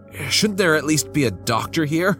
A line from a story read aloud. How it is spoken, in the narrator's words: I pleaded